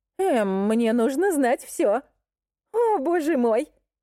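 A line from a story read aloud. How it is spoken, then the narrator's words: Squeal. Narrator (Russian): Хейли еще раз взвизгнув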